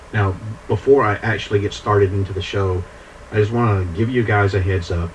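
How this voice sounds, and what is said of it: Scratchy, congested voice. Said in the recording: “I'm fighting off some sort of little cold ... some little sinus issue going on ... my voice may sound a little scratchy, and uh, I may cough and or sneeze and sniffle a lot”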